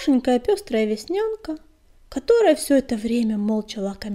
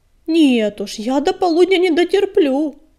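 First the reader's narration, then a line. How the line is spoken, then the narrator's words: Muffled mutter, mouth full. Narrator (Russian): с набитым ртом пробурчал Белыш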